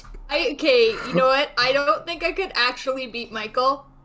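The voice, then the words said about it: Bad put-on Eastern European accent. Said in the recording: “That is the worst Eastern European accent I've ever heard ... Was really bad ... the European accent ... It was atrocious. That was so bad.”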